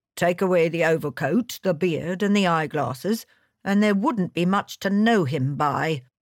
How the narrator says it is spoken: grumbled the inspector

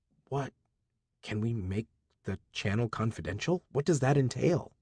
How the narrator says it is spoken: Rati whispered to me

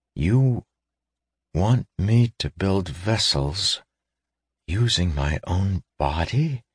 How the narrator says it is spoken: He asked faintly

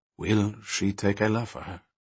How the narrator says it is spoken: he continued softly

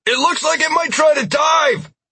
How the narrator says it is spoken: shouted

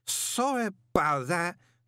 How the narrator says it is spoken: he slurred

